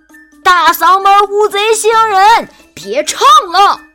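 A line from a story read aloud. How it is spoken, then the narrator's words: Shouting. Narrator (Chinese): 有人大喊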